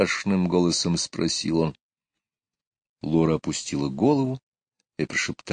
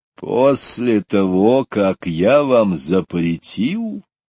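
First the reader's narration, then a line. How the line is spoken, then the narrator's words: Even more frightening voice. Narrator (Russian): еще более страшным голосом произнес папа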